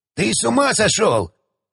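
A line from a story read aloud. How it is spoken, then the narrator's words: Yelling back. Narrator (Russian): Заорал он в ответ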